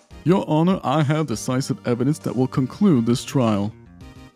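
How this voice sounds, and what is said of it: Posh upper-class put-on accent. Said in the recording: “what is that accent even supposed to be? ... the sound of class and money”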